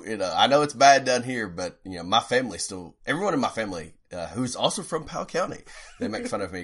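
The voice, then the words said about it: Regional American accent. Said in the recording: “I'm like, oh, yes, I do. ... my accent just like never went away”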